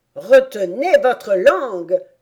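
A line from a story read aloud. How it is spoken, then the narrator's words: Griffin's threatening yell. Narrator (French): hurla le griffon en menaçant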